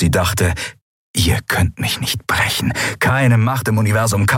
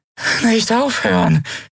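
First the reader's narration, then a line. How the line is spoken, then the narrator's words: Weak exhausted croak. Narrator (German): krächzte matt und ausgezehrt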